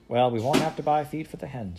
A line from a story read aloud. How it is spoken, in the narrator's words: said Ma